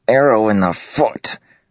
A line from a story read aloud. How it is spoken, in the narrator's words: Scar said through gritted teeth